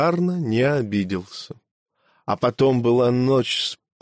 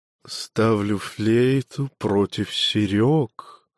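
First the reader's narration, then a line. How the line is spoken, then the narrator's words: Thoughtful murmur. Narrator (Russian): задумчиво пробормотали пухлые чувственные губы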